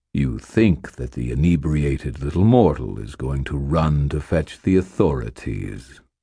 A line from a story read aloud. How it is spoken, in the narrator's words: purred the creature's voice